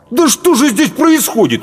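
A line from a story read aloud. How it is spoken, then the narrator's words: Exclamation. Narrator (Russian): воскликнул Паводников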